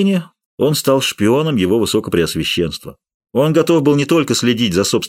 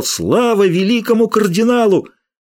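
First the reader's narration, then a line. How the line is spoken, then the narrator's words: Loud shout. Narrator (Russian): громко закричал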